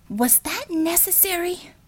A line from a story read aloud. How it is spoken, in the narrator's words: she whispered